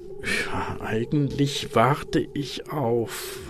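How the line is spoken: Plain. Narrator (German): sagte er

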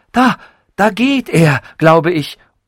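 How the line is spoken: Called out. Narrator (German): rief

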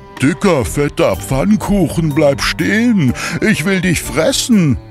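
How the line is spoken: Horse calling out. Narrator (German): ein Pferd ... rief

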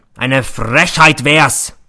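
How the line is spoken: Roar. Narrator (German): brüllt er

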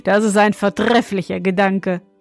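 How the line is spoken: Laughing young king. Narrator (German): meinte der junge König und lachte

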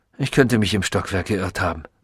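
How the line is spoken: Distracted murmur. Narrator (German): murmelte er, als sei er mit etwas anderem, weit wichtigerem beschäftigt

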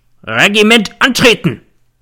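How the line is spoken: Bellowing like an old stag. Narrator (German): Der Feldwebel brüllte wie ein alter Hirsch

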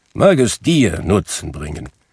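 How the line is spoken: Grumbling. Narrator (German): brummte Scrooge

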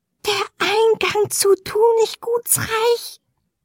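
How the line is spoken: Whisper in ear. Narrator (German): wisperte das Elfenwesen dem Jüngling ins Ohr

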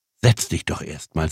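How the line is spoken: Plain. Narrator (German): sagte die Frau

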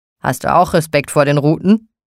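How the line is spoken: Called out. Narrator (German): rief er

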